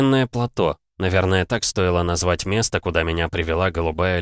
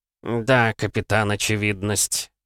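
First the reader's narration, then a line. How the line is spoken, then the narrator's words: Snort. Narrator (Russian): хмыкнул Сандаль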